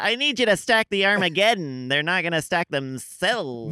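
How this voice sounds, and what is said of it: Imitates another person's voice. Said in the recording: “John Krasinski doing an impression of John Mulaney”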